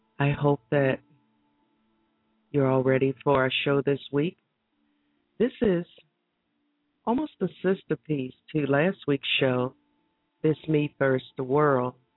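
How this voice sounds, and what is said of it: Voice cracking, slightly hoarse. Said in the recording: “my voice is cracking a little bit. I appear to be catching a cold again”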